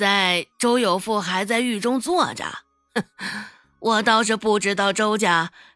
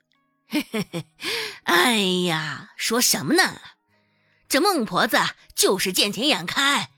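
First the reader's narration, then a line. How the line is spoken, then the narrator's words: Laughing. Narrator (Chinese): 王婆子笑着说道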